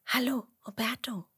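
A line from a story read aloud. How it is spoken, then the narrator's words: Whisper. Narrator (German): flüstert Emmerla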